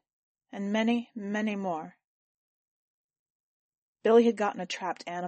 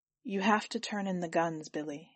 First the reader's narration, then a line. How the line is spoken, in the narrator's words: Alex said gently